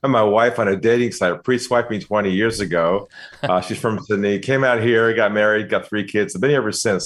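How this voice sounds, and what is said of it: American accent. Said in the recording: “probably got the accent. I'm from the U.S. originally”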